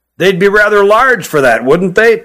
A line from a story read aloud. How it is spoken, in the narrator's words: chuckled Hutt